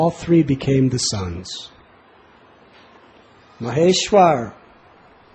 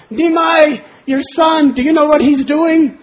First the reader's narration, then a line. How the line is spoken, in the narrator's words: they cried out to Sachi Devi